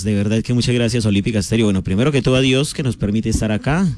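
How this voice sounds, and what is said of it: Radio announcer-style voice. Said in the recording (Spanish): “tiene voz de locutor”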